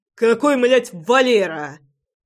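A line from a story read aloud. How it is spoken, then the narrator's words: Barked. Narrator (Russian): рявкнул я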